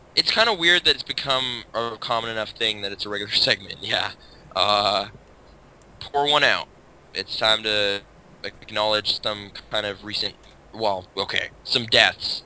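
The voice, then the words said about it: Sounds a little sick. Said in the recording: “you sound kind of sick, if you can tell. ... that's why I sound a little sick.”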